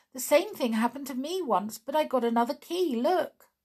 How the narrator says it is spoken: cried Click

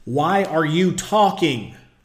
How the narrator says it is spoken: Miss White yells

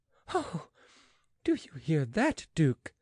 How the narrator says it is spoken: exclaimed the lady, laughing

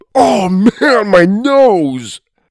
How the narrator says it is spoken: whined

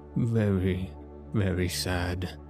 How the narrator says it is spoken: murmured Dr

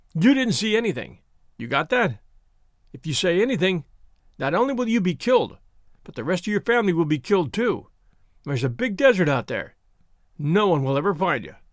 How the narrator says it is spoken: In a thick New York accent, he said

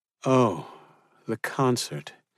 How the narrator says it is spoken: she groaned

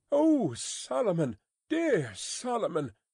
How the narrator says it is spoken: cried Miss Pross

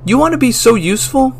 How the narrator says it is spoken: I yelled

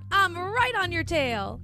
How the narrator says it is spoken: he yelled

